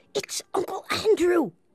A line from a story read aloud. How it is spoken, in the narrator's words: whispered Diggory